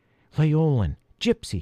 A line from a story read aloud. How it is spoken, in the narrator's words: gasped